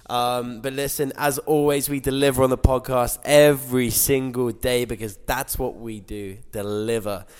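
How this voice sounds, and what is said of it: Voice affected by a cold. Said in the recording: “I've got a bit of a cold. You probably hear that in my voice.”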